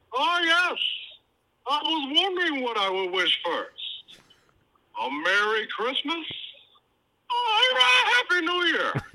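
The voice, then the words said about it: Imitation of a movie villain's voice. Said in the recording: “in a Bane voice ... that Tom Hardiness that he gave to Bane”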